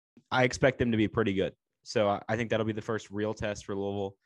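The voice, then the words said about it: Strained, struggling voice. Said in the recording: “my voice is struggling this morning”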